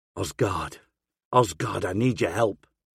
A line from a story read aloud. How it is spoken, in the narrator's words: I whisper